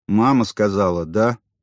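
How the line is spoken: Muttered. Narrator (Russian): буркнул он наконец

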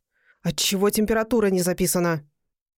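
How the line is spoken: Rough, breathless question. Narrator (Russian): не выдержал и спросил грубо и задыхаясь

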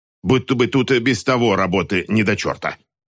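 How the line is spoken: Loud grumble over singing. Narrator (Russian): Пробурчала она достаточно громко, чтобы быть услышанной, несмотря на песнопение Джонни

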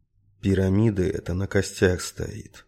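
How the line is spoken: Quiet. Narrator (Russian): тихо сказал он

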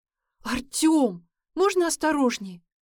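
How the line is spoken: Indignant. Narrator (Russian): возмущенно сказала она

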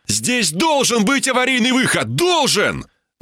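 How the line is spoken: Yelling. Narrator (Russian): заорал я

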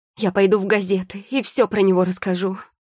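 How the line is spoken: Exclamation. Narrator (Russian): воскликнула блондинка

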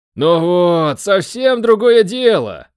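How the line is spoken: Satisfied exhale. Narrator (Russian): удовлетворенно выдохнул Миша

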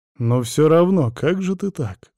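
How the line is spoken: Sighing. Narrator (Russian): вздохнул я еще раз

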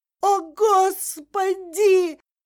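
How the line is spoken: Shouting. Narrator (Russian): закричала Катя

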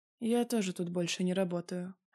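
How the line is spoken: Sad reply. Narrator (Russian): отвечаю ей печально

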